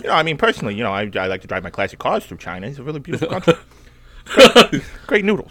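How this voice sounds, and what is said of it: Jay Leno impression. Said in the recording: “an active Jay Leno impersonation”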